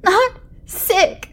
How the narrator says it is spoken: the boy yelled

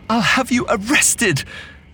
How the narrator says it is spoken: Lizaveta cried

